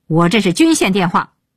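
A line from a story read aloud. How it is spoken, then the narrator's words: Shouting into phone. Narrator (Chinese): 鹏飞对电话大吼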